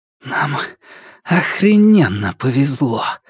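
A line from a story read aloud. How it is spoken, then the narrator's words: Hoarse. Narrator (Russian): прохрипела Хелис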